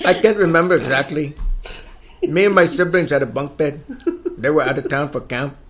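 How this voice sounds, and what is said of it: Bad put-on Mexican accent. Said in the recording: “Should I use the bad Mexican accent? ... You sound like... what's that kid's name from Napoleon Dynamite? Pedro.”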